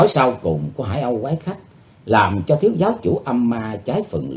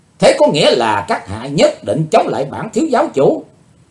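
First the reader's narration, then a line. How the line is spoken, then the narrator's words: Furious loud shout. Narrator (Vietnamese): thiếu giáo chủ âm ma đỏ dời dợi như lửa, hắn quát to lên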